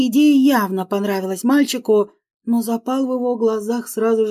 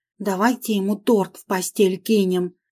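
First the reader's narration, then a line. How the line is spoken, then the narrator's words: Whisper. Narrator (Russian): Шепчу Андрею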